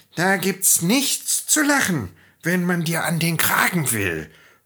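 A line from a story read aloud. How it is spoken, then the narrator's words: Cat hissing. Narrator (German): fauchte die Katze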